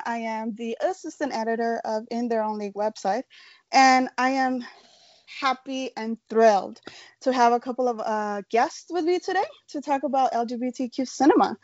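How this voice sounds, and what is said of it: American accent. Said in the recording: “my British accent has disappeared and somehow came up with an American one”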